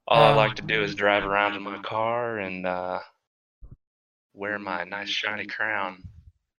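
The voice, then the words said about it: Put-on cowboy accent. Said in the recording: “That's why I'm talking with the cowboy accent.”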